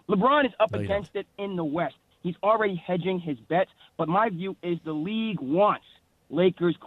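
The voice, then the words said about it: New York accent. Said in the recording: “You even have an accent, but you sound like you're from New York originally”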